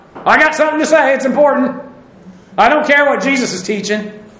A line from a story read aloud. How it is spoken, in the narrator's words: blurting out